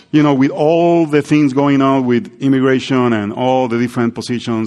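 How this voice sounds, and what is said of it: Non-native English accent. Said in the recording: “your English is not as bad ... my accent is not a distraction”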